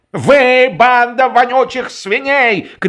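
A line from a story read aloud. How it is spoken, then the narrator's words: Shouting outdoors. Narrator (Russian): кричал во дворе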